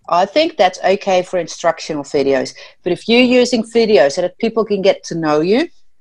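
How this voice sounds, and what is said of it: Noticeable unusual accent. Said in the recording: “it shows my funny accent.”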